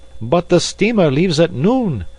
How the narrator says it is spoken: observed Passepartout nervously

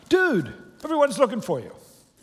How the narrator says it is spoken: they exclaimed

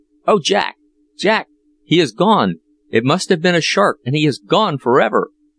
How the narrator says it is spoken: in a frantic state, wringing his hands and exclaiming

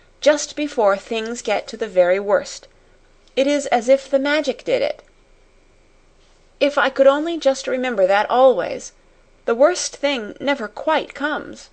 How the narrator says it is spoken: she cried

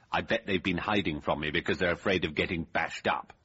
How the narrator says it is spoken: said Temple

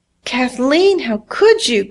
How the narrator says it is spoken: cried mother

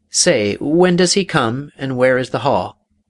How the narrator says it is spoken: exclaimed the Caliph

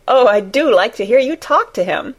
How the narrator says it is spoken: Mary said, laughing delightedly

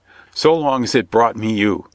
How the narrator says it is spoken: he replied laughingly

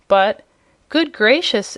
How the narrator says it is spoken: exclaimed the surprised Jimfred

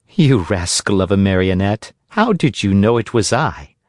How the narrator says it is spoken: she asked, laughing

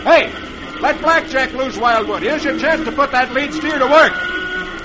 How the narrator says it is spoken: Roy shouts to Wildwood

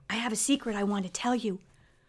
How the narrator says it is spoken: said in a whisper

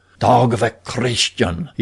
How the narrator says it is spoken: he whispered

